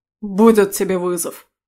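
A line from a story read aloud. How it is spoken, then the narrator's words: Young man's bark. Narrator (Russian): рявкнул парень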